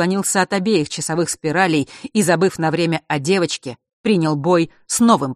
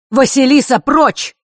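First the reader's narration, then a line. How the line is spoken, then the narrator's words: Shouted. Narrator (Russian): выкрикнул зодчий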